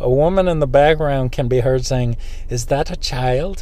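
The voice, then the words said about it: Poor attempt at Brazilian accent. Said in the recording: “Let me see if I can do an accent. It is Brazil. Man, I don't know how to do a Brazilian accent. Well, I'll just do one. ... That's terrible.”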